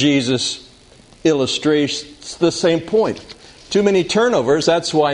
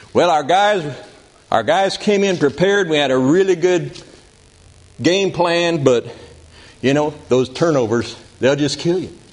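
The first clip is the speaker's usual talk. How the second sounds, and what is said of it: Put-on Southern US accent. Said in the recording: “probably in a southern accent, because football coaches are frequently from the South”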